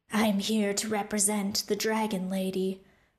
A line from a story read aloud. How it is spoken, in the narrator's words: The monster replied in a low, gravelly voice